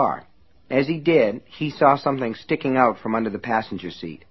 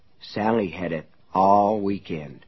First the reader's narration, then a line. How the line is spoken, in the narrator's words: his mind whispered